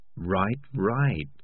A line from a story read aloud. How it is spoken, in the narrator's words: said Morris soothingly